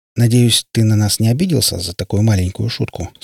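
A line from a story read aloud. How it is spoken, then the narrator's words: Plain. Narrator (Russian): спросил он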